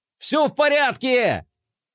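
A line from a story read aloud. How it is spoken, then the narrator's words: Shout. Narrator (Russian): прокричал Флай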